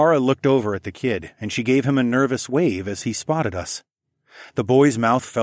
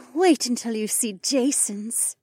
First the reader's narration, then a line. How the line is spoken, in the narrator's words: Becca sighed and smugly